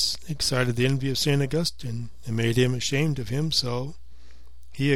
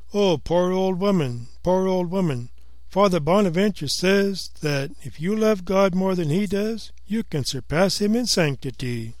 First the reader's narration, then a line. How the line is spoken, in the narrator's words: Brother Egregious exclaimed